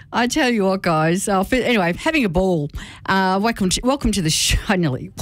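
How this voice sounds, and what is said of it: Put-on Scottish accent. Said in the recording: “Suddenly have a Scottish accent.”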